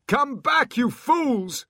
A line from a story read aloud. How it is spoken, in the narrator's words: He shouted after his soldiers